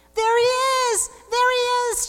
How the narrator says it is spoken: shouted Jacob

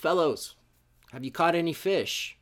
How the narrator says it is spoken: He called out

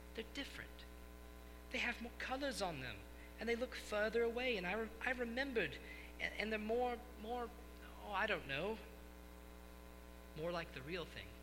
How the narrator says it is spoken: said the Lord Diggory softly

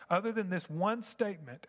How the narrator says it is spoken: I shouted

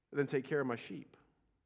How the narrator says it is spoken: Jesus said

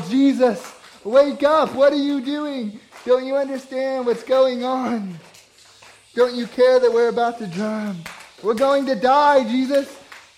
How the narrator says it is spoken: go up to him and yell

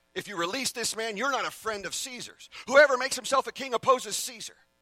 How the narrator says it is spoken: the Jews cried out

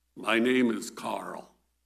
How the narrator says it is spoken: said the raspy voice deep inside the bandages

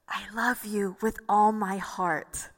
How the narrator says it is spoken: he would whisper into my ear

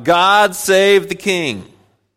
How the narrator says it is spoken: the congregation, the people will shout

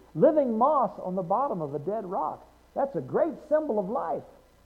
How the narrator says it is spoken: exclaimed the teacher

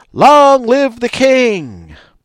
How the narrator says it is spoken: They shouted

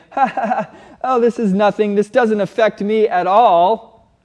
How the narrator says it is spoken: laugh and you say

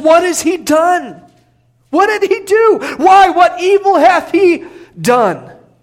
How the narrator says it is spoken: Pilate cries out and he says

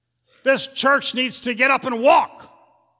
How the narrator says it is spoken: he thundered

